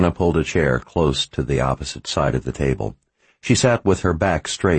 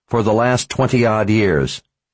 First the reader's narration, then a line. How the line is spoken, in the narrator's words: Verna snapped